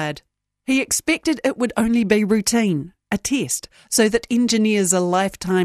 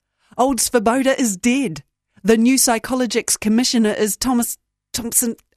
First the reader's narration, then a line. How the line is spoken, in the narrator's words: Mardikian blurted